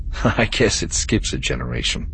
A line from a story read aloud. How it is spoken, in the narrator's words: Vayner said with a soft laugh